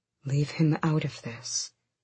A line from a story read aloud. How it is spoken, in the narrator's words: Gavriel said too softly